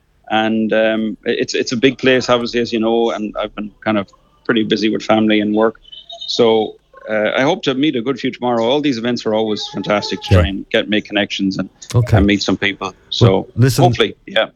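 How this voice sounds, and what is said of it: Polished Irish accent. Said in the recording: “you're starting to get the American accent ... I don't think it's an American accent. It's just a very polished, clean Irish accent. ... A very, very polished Le Canvey accent.”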